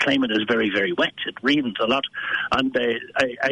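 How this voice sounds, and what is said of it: Usual voice. Nothing is said of it.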